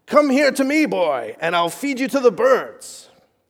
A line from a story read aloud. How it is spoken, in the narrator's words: He yelled across the field of battle